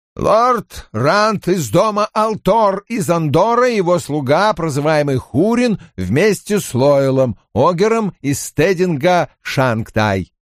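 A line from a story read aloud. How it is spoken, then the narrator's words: Loud announcement. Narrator (Russian): громко объявил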